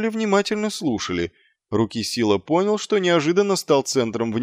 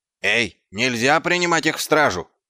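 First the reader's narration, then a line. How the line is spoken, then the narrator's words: Dwarf shouting from crowd. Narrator (Russian): закричал из толпы какой-то гном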